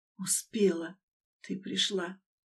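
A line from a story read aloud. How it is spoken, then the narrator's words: Barely audible. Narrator (Russian): еле слышно сказал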